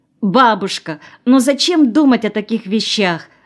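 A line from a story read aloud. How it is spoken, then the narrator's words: Exclamation. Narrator (Russian): воскликнула Ася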